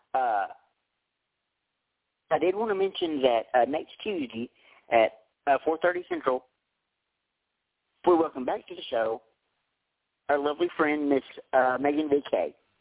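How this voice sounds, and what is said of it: Strained, fading voice. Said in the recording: “Before I lose my voice, which it feels like I'm going to right now”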